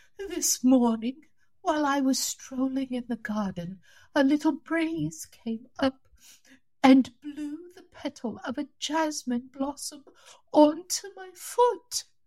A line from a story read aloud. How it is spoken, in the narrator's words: she groaned